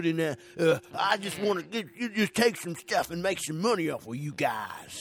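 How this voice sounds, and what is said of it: Put-on Southern Texas accent. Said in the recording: “I think I'm doing more of a Texas accent... you are doing very Southern Texas accent”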